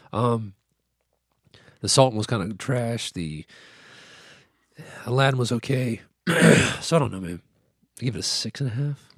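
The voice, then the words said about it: Hoarse, failing voice. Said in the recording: “I'm really losing my voice now.”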